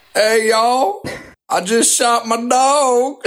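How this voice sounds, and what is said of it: Put-on Alabama Southern accent. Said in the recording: “that Alabama impression”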